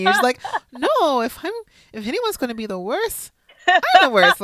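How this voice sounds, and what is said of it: Impersonation of another woman. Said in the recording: “I love your impersonation”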